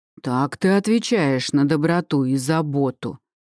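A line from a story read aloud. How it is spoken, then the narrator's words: Roared. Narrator (Russian): взревел Эберли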